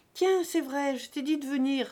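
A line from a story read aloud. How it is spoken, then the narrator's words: Crying out. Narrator (French): s'écria Macron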